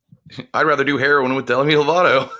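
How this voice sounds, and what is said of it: Imitates another person's voice. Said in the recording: “Good Booger impression.”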